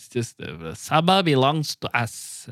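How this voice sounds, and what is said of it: Attempted Filipino accent. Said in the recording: “That was me trying to do a Filipino accent. I don't think it's correct.”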